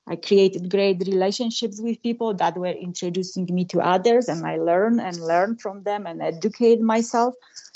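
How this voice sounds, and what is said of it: Polish-accented English. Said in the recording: “Even myself with my accent ... little girl from Poland ... her English is broken English”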